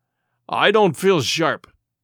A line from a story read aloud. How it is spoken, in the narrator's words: growled Morgan